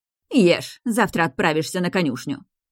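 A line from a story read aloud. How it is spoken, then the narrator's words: Menacing. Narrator (Russian): грозно произнесла госпожа Брунхильда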